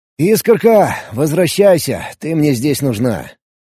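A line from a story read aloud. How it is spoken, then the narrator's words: Sighing. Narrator (Russian): Вздохнул я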